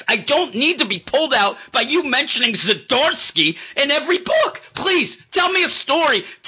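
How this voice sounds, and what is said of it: Strained, losing voice while ranting. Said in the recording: “Now I'm losing my voice again. Holy moly. It just got me angry.”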